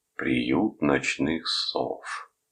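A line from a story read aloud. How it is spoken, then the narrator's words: Gloomy comment. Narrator (Russian): мрачно прокомментировал он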